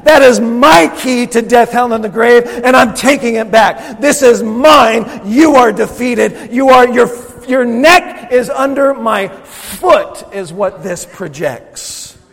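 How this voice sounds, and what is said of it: Intense, angry-sounding preaching. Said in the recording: “I'm really sorry that I sound angry ... the intensity of the message”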